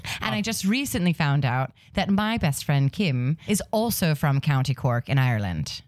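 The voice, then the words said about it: Put-on Irish accent. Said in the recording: “I can actually do a very good Irish accent ... You're slipping into it.”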